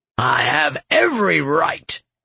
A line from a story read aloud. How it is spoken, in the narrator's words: Duke Senin snarled